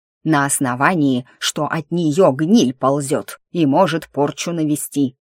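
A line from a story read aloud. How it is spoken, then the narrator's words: Sharp bark. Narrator (Russian): рявкнул помещик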